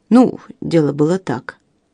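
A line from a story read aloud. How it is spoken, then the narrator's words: Mumble. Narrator (Russian): промямлил Линдси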